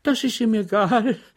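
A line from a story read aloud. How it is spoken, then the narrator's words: Amused laughing. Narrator (German): lachte die Landsmännin, die die letzte Frage für einen misslungenen Witz hielt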